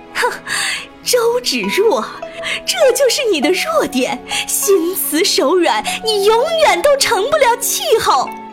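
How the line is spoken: Sneering. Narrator (Chinese): 丁敏君冷笑

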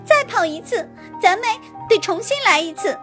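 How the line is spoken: Indignant shout. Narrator (Chinese): 野兔不服气地喊道

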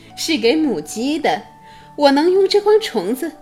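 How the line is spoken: Smiling. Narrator (Chinese): 贝琳达笑着说

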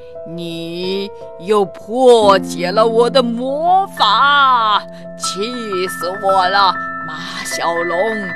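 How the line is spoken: Sinister low distant voice. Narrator (Chinese): 一个阴森低沉的声音从远处传来

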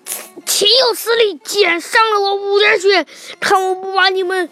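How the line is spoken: Enraged. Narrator (Chinese): 黑姆黑姆大怒

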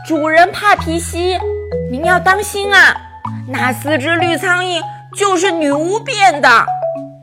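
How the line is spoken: Loud shout. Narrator (Chinese): 卢卡斯大声地喊道

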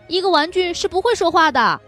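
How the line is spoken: Surprised exclamation. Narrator (Chinese): 他惊讶的叫起来

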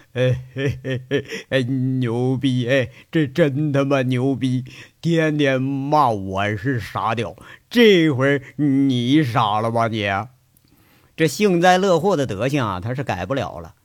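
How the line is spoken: Gloating, roaring laughter. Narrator (Chinese): 王虎子 放声大笑起来，好像是见了最可笑的笑话似的，笑的呀是前仰后合 说着

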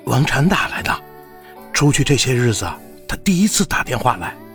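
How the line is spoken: Soft-spoken. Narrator (Chinese): 陈谷 轻声道

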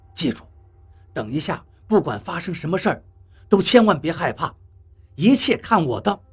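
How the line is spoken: Soft, gentle. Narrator (Chinese): 何洛轻声对我说

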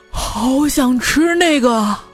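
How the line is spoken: Loud. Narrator (Chinese): 你的朋友大声说

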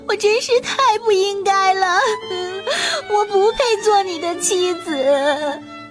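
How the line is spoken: Crying while speaking. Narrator (Chinese): 她一边哭泣，一边对国王说

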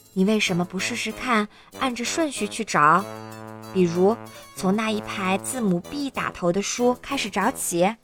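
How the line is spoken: Quiet. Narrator (Chinese): 我小声说

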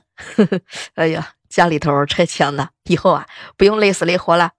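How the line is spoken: Cheerful, smiling. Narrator (Chinese): 老板笑眯眯的看着我问

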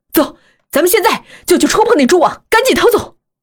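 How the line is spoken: Desperate shout. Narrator (Chinese): 阿迪 不顾一切的喊道

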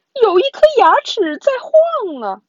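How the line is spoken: Maid's alarmed shriek. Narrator (Chinese): 女仆惊声尖叫

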